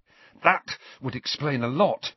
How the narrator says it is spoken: panted Harry

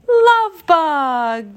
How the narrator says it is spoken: the others cried happily

